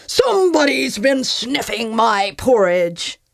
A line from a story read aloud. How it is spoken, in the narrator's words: With a manic gleam of satisfaction, Papa Bear roared in his big, growly voice